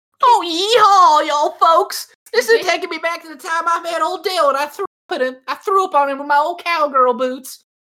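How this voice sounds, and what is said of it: Put-on Southern accent. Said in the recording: “Southern accent's coming out.”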